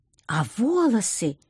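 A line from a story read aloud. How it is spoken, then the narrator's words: Expressive exclamation, young woman. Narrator (Russian): экспрессивно воскликнула девушка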